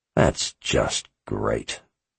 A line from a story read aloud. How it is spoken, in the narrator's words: he said under his breath